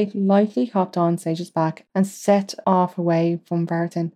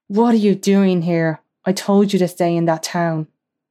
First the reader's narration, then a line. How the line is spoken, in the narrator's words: Slade roared